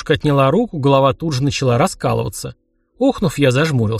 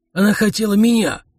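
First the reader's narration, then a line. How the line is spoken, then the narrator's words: Calm mutter. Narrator (Russian): невозмутимо буркнул Йорд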